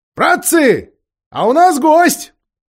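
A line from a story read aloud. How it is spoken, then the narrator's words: Shout. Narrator (Russian): Даффл крикнул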